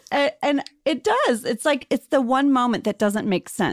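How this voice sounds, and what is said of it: Usual voice. Nothing is said of it.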